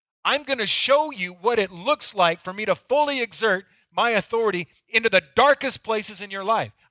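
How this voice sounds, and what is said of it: Intense, angry-sounding passionate delivery. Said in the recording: “I sound angry... I'm not angry, I'm passionate.”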